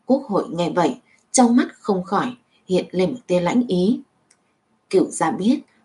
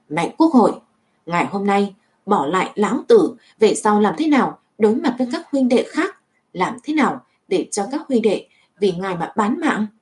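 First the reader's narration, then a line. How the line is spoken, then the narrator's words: Roaring shout. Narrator (Vietnamese): Cửu gia gầm thét nói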